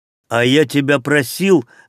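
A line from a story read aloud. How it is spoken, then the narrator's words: Barely restrained angry bark. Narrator (Russian): рявкнул Аштриер, с трудом сдерживая гнев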